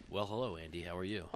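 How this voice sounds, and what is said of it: Put-on radio announcer voice. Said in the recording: “radio voice”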